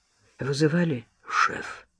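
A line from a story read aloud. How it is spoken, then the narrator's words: Hoarse with nerves. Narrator (Russian): спросил Андрей сиплым от волнения голосом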